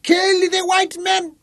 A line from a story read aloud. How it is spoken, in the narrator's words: screamed the witch from out of the flames